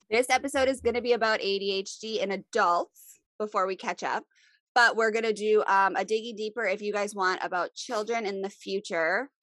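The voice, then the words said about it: Sniffly voice from a cold. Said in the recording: “Sorry, I have a little cold if I sound sniffly”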